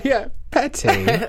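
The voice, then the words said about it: Put-on posh English accent. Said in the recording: “I just pictured you like sipping tea with crumpets when you said that... Better English accent than I have.”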